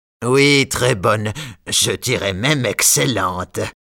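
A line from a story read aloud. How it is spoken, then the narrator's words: Baron sneering. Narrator (French): dit le baron en ricanant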